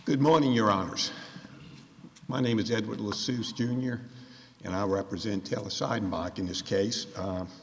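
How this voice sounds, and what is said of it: Congested, stuffy-nosed voice. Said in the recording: “excuse my voice. I'm a little congested this morning.”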